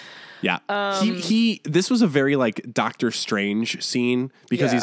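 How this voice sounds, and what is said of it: Usual voice. Nothing is said of it.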